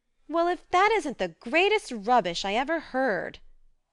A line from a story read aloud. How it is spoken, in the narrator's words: cried Joe indignantly